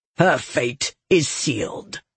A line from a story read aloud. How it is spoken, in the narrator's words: Othan growled